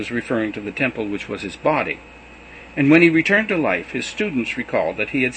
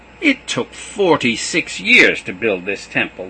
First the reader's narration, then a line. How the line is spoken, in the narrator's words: sneered